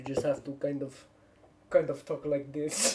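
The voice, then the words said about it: Put-on Russian accent, vaguely Pakistani. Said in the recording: “I can do a Russian accent. ... Sounds vaguely Pakistani, but I will accept it.”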